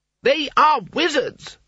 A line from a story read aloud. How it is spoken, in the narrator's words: shouted Coyne